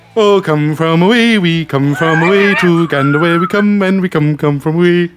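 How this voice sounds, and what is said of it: Imitates another person's singing voice. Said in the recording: “does a great impersonation... This is my impersonation of Joe doing Come From Away”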